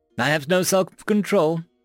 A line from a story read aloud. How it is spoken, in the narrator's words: she said brightly to no one